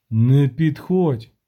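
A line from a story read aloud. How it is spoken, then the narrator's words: Hoarse, smiling. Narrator (Ukrainian): сказав хрипко другий відьмак і посміхнувся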